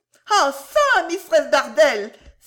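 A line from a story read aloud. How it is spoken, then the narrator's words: Cried out. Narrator (French): s'écria Mistress Cluppins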